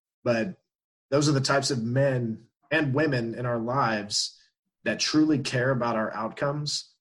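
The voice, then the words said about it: Choked-up, emotional voice. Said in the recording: “I get a little choked up even right now thinking about it.”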